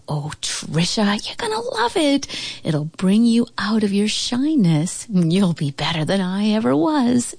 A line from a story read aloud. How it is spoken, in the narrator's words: she cooed